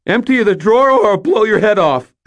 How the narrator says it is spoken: I shouted

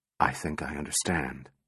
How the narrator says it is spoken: Calvin whispered

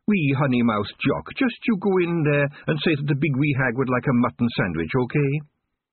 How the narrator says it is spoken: the Kelder cut in sharply and said

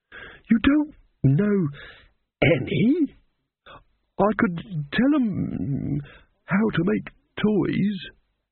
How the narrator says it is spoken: the old man quavered

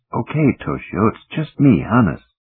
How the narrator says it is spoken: the engineer mutter

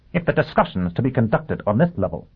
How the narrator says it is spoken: Dagenham snapped

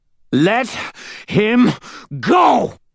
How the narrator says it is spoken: spat the old man between breaths

